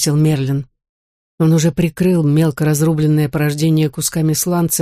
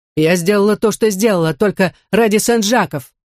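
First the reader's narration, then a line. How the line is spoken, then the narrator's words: Exclaiming. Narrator (Russian): воскликнула Мэри Хью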